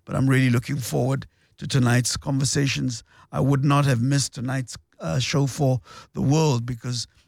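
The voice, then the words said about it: Slightly strained, unwell-sounding voice. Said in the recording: “As you can hear, my voice is suffering a little bit. ... after an epic battle with the flu”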